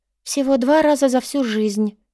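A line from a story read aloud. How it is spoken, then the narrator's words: Sighing. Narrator (Russian): вздохнула Анна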